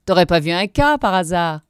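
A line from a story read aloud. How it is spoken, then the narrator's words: Group sneering laughter. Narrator (French): ricanaient les autres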